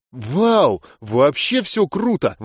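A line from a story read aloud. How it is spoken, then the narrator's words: Girl exclaiming with squeal. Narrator (Russian): воскликнула девушка, даже взвизгнув от избытка чувств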